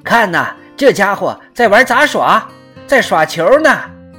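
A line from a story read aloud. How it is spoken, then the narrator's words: Loud joking exclamation. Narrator (Chinese): 总喜欢拿火山当笑料的彭克罗夫不禁大声说道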